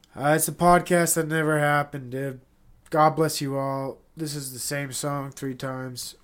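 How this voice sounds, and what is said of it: Congested, stuffy-nosed voice. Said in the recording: “I'm having a hard time talking because I'm so congested”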